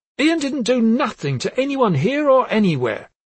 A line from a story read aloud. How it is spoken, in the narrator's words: he declared hotly